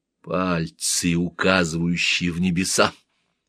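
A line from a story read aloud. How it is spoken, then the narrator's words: Whisper. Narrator (Russian): прошептала Хатшепсут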